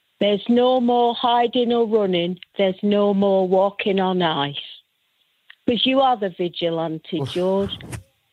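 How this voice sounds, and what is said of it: Mild Rochdale accent with twang. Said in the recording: “I'm not quite as strong an accent, but it's there, the twang... I could tell Rochdale your accent”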